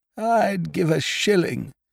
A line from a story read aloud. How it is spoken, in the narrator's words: said Biffy, wistfully